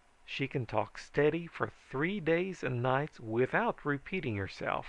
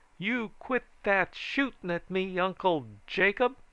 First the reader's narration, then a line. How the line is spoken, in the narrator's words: I roared